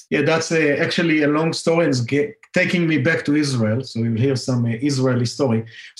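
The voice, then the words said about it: Israeli accent. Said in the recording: “my favorite accent in the world is an Israeli accent, and I want to take yours.”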